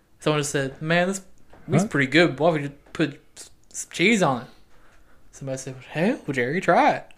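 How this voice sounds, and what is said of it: Failed New England accent, drifting. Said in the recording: “That was not a very New England accent. ... you went from Southern accent to French Canadian, maybe?”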